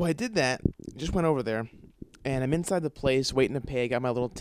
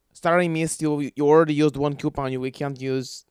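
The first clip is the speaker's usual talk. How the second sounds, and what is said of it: Failed Mexican accent sounding Slavic. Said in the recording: “that kind of sounds a little Slavic... why can't I do a Mexican accent?”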